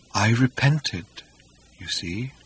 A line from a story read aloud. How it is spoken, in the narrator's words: he murmured dolefully